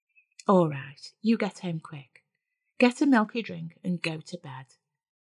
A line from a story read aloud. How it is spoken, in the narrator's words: Mum kindly said